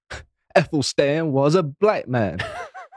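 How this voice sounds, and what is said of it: Put-on American accent. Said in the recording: “I don't know why I'm doing an American accent. It was more London”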